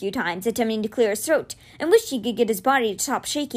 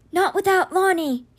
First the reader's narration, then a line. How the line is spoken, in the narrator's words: he rasped, his voice trying hard to come back